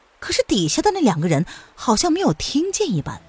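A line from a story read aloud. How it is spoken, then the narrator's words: Urgent shout. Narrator (Chinese): 叶来夫人看见水已经从栅栏之间漫了出来，她于是叫道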